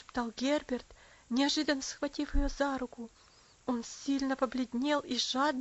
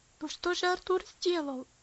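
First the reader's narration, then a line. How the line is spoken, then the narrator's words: Pleading. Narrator (Russian): взмолился Герберт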